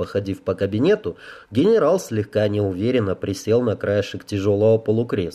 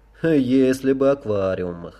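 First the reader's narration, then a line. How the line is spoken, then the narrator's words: Sighing. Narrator (Russian): вздохнул генерал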